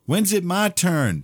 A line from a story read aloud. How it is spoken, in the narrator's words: Paul yelled